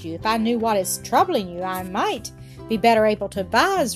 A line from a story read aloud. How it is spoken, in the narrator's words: replied the old man kindly